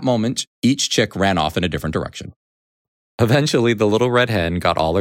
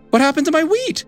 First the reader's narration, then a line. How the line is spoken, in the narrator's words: cried